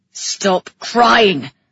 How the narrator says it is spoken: he roared

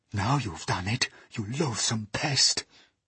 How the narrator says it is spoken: whispered the earthworm

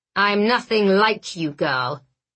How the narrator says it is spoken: he growled, every word soaked in self-loathing

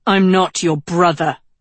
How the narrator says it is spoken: Tedros spat, lit up with rage

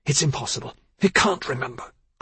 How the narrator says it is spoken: Clover hissed

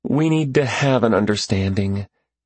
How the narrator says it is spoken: sighed and said

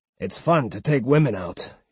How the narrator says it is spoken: he grumbled

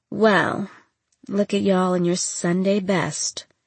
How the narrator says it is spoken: she said with a raspy laugh

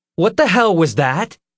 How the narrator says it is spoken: Nick cried

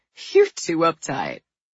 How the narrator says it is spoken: Bruce laughed and said

